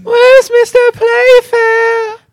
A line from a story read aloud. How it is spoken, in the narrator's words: Janet cried out